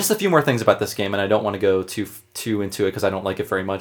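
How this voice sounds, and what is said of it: Talking very fast. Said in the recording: “I'm talking too fast, I'm way caffeinated today”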